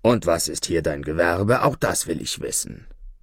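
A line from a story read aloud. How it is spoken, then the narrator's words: Judge's gruff grumble. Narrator (German): brummte der Richter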